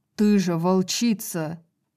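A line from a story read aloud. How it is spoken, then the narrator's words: Growled. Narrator (Russian): зарычал Итан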